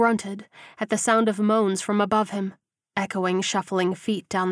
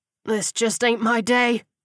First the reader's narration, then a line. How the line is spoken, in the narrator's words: Rogers groaned